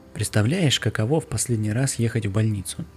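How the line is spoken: Quiet. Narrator (Russian): тихо сказала я

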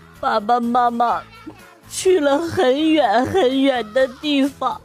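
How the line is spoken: Crying. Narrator (Chinese): 他就哭了啊，说

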